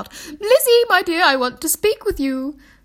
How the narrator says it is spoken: Bennet called out

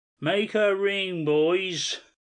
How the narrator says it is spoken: shouted

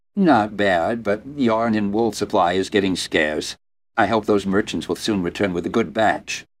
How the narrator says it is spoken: the middle-aged woman answered in a stern tone

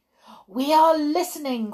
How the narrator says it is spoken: cried the audience, who are now jumping up and down in their chairs with excitement

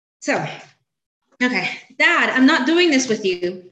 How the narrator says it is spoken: Portia yelled

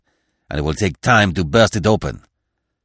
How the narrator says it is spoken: he growled

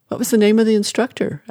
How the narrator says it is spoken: asked the neighbor

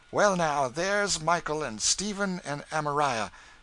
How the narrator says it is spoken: exclaimed Phineas joyfully

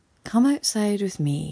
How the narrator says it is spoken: he said

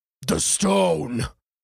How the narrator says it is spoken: The bulblin growled again

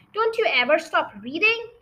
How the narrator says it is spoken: he snapped at her

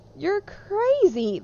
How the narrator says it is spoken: they laughed

